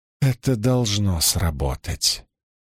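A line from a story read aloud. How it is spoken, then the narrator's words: Soft. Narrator (Russian): мягко произнесла Илэйн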